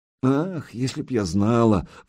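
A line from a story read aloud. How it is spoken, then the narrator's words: Tsarina sighing. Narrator (Russian): вздохнула зарица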